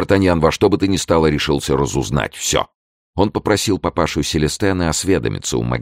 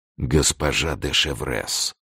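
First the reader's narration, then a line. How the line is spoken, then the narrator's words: Startled whisper. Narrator (Russian): Д'Артаньян прошептал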